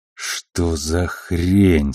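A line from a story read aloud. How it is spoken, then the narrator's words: Hissed through teeth. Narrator (Russian): сквозь зубы процедил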